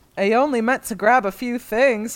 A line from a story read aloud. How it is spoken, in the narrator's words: he chuckles sheepishly